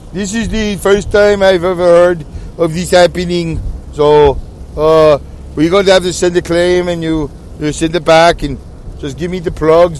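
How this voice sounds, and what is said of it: Put-on Middle Eastern accent. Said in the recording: “he had that Middle Eastern accent.”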